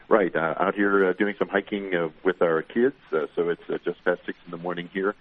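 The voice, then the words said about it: Quiet, hushed speaking voice. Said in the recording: “my voice is, I'm trying to keep it down a little bit, not wake people in the house.”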